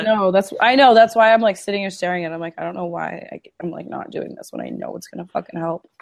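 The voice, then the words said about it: Husky, sick-sounding voice. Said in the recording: “my sexy voice, but I am a little under the weather.”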